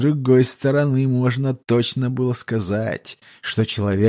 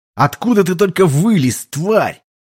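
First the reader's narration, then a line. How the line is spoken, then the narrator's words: Shouted. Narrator (Russian): прокричать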